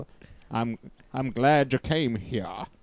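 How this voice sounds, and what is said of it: Morgan Freeman impression. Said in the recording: “That's his Morgan Freeman.”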